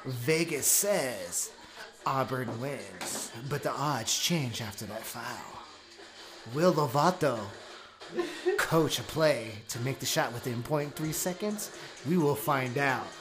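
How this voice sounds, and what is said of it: Sports announcer voice. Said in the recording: “How you like that announcer voice?”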